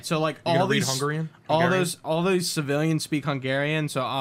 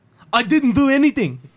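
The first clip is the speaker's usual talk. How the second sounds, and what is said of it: Put-on Russian accent. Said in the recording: “I'll speak it in like a, you know, my Russian accent.”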